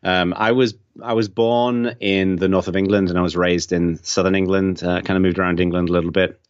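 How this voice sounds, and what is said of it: English accent with American influence. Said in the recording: “I'm from England, although a lot of people think that I'm from Australia because I've got this weird Englishman living in America accent, which is kind of, fusing into something a bit odd”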